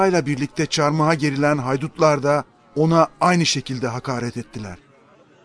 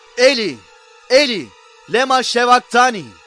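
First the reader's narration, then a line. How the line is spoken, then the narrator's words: Loud cry. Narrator (Turkish): İsa yüksek sesle bağırdı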